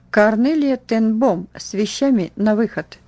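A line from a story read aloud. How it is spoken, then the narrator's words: Stern metallic voice. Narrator (Russian): грозная надзирательница металлическим голосом произнесла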